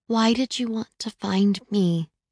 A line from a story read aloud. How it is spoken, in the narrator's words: Violetta asks again, her voice quiet